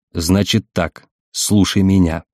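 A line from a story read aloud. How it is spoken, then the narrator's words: Crisp, stern command. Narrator (Russian): проговорил Баринов четко и строго, как бывало разговаривал со своими подчиненными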